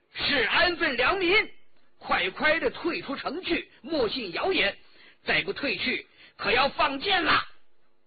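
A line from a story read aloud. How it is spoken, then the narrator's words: Bold loud shout. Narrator (Chinese): 究竟是武官，颇有胆量，高声叫道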